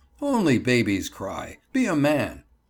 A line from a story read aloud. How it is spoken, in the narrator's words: one of my teachers would jeer at me and say